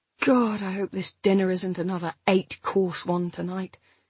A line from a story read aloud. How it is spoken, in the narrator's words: I said wearily